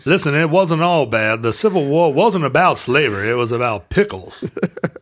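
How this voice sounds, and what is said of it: Exaggerated comic Southern accent. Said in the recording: “your hilarious Southern accent... Deputy Dog character”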